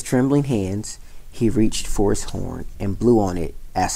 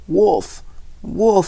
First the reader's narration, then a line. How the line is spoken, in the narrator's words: cried again and again